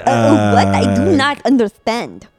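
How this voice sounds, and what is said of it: Muddled mix of foreign accents. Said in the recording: “That's an interesting accent. That was a lot of different countries. ... I don't even know what it was trying to be.”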